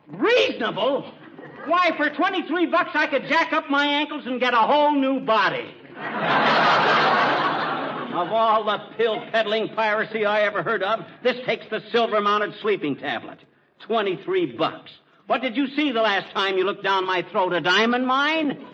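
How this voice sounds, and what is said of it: Shouting angrily. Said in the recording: “Stop shouting”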